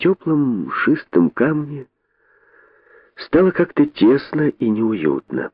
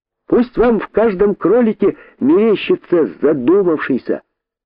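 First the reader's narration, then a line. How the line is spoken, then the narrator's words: Shout fading away. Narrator (Russian): крикнул кролик, и голос его растворился в шорохах джунглей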